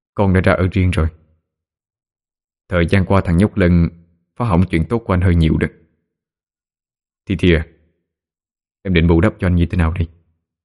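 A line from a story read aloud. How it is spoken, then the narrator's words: Intimate whisper in ear. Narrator (Vietnamese): cậu cả ghé gần tai của Liễu Thi, phả hơi nóng vào tai cô rồi khẽ nói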